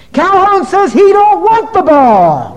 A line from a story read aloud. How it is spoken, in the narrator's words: one kid on the bench had about all he could take, and he turned around and yelled up to the stands